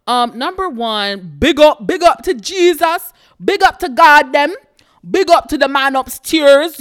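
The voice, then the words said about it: Deliberately bad put-on Jamaican accent. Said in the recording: “my horrible, terrible Jamaican accent. I'm so sorry, Jamaicans.”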